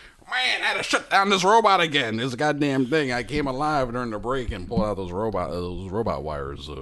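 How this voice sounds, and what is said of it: Usual voice. Nothing is said of it.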